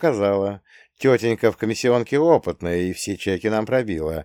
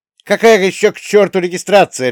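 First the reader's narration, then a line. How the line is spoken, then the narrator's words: Mother's harsh bark. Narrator (Russian): рявкнула мама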